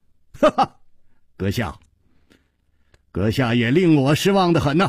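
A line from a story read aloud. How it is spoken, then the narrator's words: Laughing. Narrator (Chinese): 楚留香笑着说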